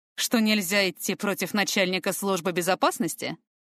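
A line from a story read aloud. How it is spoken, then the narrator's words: Wry snort. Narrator (Russian): хмыкнул Фортем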